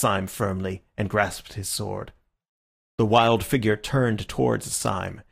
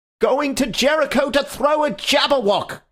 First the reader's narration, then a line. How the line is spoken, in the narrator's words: cried the other